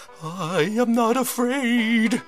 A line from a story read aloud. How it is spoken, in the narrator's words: he cried